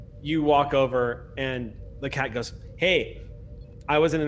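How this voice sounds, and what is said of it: Usual voice. Nothing is said of it.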